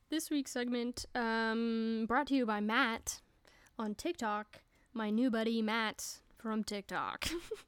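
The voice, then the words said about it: Announcer-style radio voice. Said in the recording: “That's my radio voice.”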